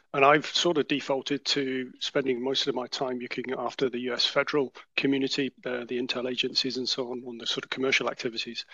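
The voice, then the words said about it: British English accent. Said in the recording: “you're both based in the UK, as we can tell from accents”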